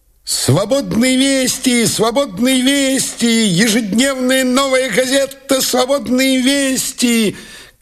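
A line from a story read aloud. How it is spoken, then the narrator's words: Shouting newsboy. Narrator (Russian): кричал газетчик-мальчишка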